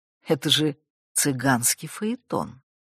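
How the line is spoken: Muttered. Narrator (Russian): Мама пробормотала ему в спину

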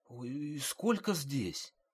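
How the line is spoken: Frightened woman asking. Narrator (Russian): Испуганно спросила женщина

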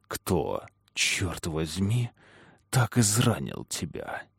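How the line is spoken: Rumbling growl. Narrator (Russian): прорычал, и в груди у него загрохотало

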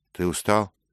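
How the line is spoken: Plain. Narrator (Russian): спросил Дик

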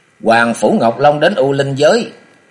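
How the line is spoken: Loud. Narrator (Vietnamese): Chàng lớn tiếng nói

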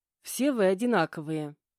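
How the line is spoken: Unyielding grumble. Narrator (Russian): непримиримо проворчала я

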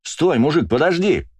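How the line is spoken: Yell. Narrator (Russian): заорал я

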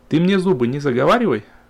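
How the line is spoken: Snapped. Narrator (Russian): огрызнулась Ольга

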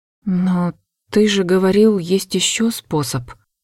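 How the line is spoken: Quiet voice. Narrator (Russian): тихо произнесла

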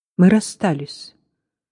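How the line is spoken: Forced calm. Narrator (Russian): ответил он, стараясь говорить спокойно

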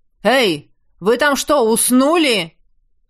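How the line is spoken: Bark. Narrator (Russian): Гаркнул

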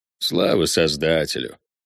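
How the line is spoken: Mutter. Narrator (Russian): буркнул Карло

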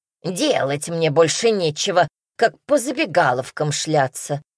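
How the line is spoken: Muttering old woman. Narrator (Russian): буркнула старушка

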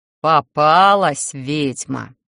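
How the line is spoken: Pleased snort. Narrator (Russian): довольно хмыкнул Атани

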